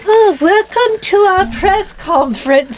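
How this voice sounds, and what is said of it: Unidentified put-on foreign accent. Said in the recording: “I'm not sure what my accent is, but I like it. ... It's very nice. ... It disguises my inebriation. ... Are we in another country?”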